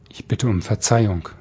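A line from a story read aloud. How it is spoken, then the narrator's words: Plain male. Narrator (German): sagte der Mann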